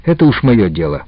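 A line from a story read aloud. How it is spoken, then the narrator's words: Angry reply. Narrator (Russian): также сердито ответил Яша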